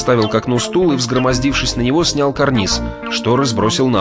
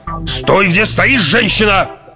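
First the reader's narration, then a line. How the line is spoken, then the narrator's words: Harsh bark. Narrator (Russian): рявкнул на нее Лабиринт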